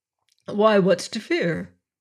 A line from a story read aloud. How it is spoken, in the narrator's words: he said